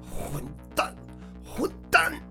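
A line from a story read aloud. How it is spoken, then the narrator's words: Frantic tearful scream. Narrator (Chinese): 疯狂地嘶喊着，声音带着哭腔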